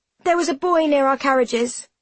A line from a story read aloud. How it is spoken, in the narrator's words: I blurt out